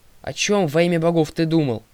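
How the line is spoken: Grumbled. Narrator (Russian): проворчала Талия

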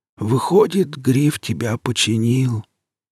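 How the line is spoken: Old man exhaling words. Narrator (Russian): выдохнул старик

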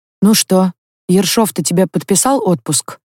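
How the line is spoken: Plain question. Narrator (Russian): спросил следак

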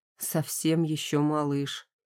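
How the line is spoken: Quiet. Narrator (Russian): тихо говорит он

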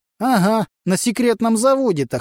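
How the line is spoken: Snort. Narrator (Russian): хмыкнул сосед

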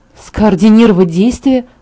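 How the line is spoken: Through gritted teeth. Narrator (Russian): повторила я сквозь зубы

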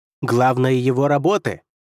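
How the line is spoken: Shouted while struggling. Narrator (Russian): прокричал Лермонт, вырываясь

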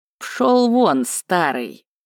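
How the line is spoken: Hissing. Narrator (Russian): прошипел Жаргал

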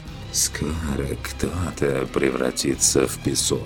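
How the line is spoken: Whisper. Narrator (Russian): прошептал змей

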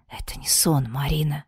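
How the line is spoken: Whisper. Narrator (Russian): прошептал темный

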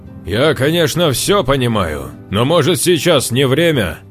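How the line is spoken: Genuinely angry, deliberately loud. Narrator (Russian): Гречкин произнес эту фразу не наигранно злобно и намеренно громко

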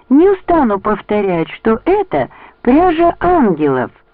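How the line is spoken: Exclamation. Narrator (Russian): воскликнула Бонни

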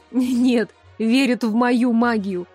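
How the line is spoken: Laughing loudly. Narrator (Russian): захохотала я

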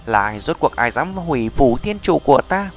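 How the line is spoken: Agitated loud shout. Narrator (Vietnamese): Người đàn ông trung niên này kích động chốc lát, quát ầm

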